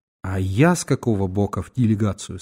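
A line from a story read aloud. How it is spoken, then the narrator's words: Plain. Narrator (Russian): спросил я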